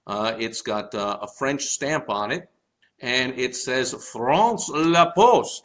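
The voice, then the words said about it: Terrible put-on French accent. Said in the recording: “the terrible accent”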